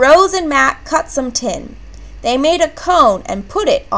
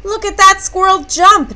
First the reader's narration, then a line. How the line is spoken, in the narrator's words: Nana cried